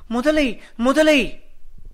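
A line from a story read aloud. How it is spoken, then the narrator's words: Screaming in fear. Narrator (Tamil): என்று அலறினாள்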